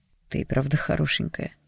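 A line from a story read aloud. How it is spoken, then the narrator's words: Mutter. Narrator (Russian): пробормотал он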